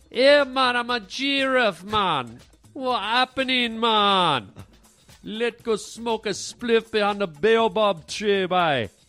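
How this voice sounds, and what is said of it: Put-on Rasta accent. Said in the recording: “That's like a Rasta a giraffe ... my accent I did just for him”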